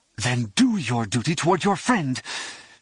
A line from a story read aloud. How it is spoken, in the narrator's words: she snarled